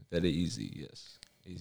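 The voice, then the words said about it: Put-on Russian accent. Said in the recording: “I can do Russian.”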